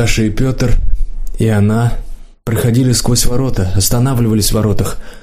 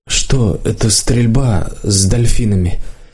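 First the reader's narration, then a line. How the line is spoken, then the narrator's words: Deep sigh. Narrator (Russian): Виталий глубоко вздохнул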